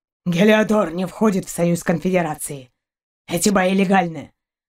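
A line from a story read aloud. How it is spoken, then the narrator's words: Dog's rough low voice. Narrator (Russian): Отозвался грубым низким голосом пес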